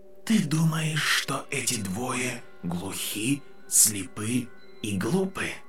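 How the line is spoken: Sadder whisper. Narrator (Russian): Шепот стал печальнее

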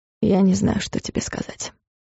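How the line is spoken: Hoarse whisper. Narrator (Russian): хриплый шепот

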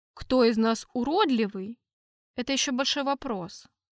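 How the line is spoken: Calm. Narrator (Russian): спокойно ответил я

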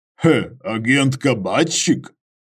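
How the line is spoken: Snorting. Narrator (Russian): Иваныч хмыкнул

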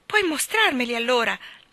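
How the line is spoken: Excited exclamation. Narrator (Italian): esclamò tutto eccitato

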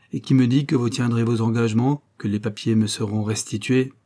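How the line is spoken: Cold. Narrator (French): fit-il froidement

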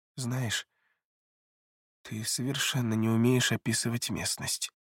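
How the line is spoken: Private whisper. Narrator (Russian): шепотом произнесла Элеонора, чтобы слышал лишь принц

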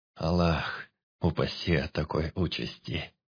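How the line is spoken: Muttered. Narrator (Russian): пробормотал Бег

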